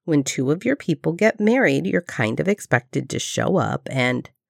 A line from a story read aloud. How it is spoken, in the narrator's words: Shepard drawled